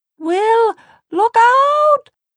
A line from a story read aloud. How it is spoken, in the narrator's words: Tessa shouted